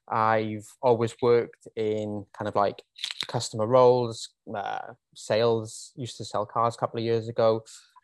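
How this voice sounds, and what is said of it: Welsh accent. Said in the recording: “I am from Wales originally. If you didn't already pick up on the accent”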